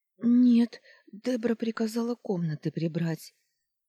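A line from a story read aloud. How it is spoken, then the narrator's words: Rasped. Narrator (Russian): просипела я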